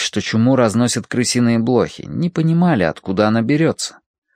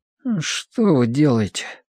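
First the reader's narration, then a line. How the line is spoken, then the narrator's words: Sleepy mumble. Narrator (Russian): пробормотал Колин сквозь сон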